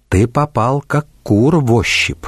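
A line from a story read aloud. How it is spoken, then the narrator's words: Quiet whisper. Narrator (Russian): тихо шепнула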